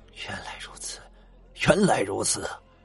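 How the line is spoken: Crowd exclaiming in amazement. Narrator (Chinese): 众人纷纷发出了惊叹之声

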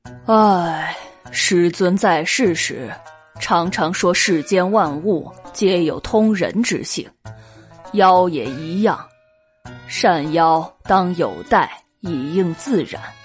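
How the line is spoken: Sighing. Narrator (Chinese): 光藏仰天叹了一口气，说道

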